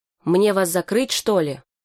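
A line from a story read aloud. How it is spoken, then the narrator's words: Shout. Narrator (Russian): Джумбер крикнул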